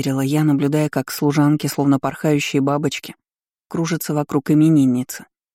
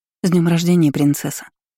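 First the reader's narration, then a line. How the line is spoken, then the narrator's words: Mumbling, embarrassed. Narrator (Russian): Промямлила вторая, пряча взгляд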